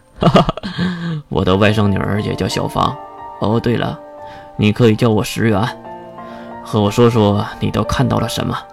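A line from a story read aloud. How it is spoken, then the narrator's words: Man laughing. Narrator (Chinese): 男人突然就笑了起来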